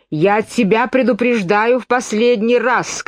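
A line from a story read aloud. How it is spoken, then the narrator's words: Shout. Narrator (Russian): крикнула королева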